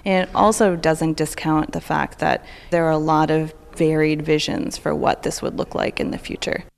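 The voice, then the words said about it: Canadian accent. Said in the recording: “You might have recognized the Canadian accent in there”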